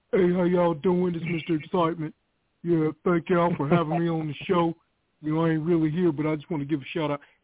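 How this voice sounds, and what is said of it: Imitates another person's voice. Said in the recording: “I did my impression ... Mr. Excitement”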